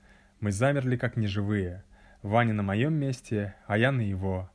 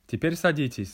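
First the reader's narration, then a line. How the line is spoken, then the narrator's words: Plain. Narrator (Russian): сказал учитель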